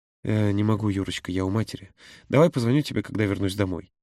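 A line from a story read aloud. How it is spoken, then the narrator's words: Tender. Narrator (Russian): нежно произнес он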